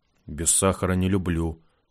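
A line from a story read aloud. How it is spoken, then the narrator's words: Grumbled. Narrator (Russian): буркнул Рогов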